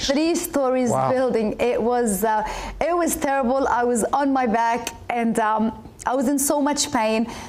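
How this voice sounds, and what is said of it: Egyptian-Australian accent. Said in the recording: “an Egyptian-Australian accent”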